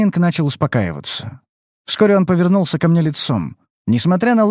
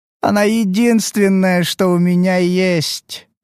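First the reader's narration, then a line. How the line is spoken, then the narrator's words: Moaning. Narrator (Russian): простонал он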